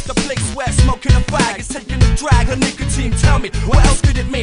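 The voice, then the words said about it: British English accent. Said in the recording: “I ain't embarrassed of my accent. In fact, I'm proud of it. ... while an Englishman kick it like an American ... You ain't from New York, mate.”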